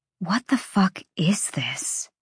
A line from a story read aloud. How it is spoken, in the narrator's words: Bryce whispered